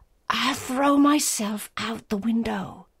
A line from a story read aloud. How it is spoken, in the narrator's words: At bay, she said in a terrible whisper